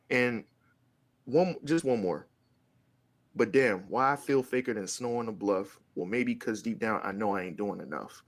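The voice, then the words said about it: Hoarse, fading voice. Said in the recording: “my voice is going out”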